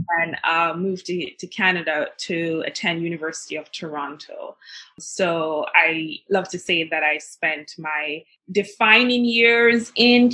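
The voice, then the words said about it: Jamaican accent. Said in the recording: “your Jamaican accent”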